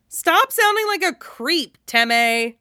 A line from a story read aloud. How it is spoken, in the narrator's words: Jiraiya scoffs and calls